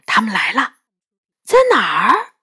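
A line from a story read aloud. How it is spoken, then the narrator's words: Hushed low voice. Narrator (Chinese): 杨永乐压低声音说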